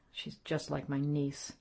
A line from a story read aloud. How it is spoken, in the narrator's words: Then he muttered almost inaudibly